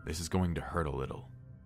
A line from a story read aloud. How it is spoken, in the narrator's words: the doctor muttered